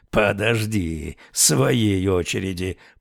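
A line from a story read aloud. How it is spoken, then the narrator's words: Growling. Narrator (Russian): прорычал он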